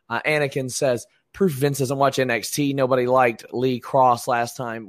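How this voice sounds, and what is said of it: Strained, partly lost voice. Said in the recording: “once my voice is back, I'll add my thoughts a little bit more”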